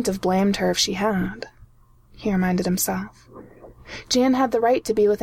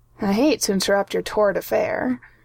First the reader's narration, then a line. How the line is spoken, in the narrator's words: Hank went on dryly